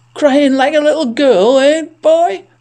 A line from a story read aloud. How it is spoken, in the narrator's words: The watcher laughed